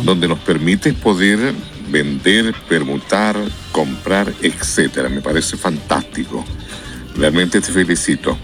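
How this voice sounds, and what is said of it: Radio announcer-like voice. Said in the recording (Spanish): “Esa voz, oiga, tienen voz de locutor.”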